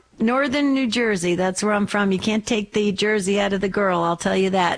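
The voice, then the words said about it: East Coast American accent. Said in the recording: “my back east accent”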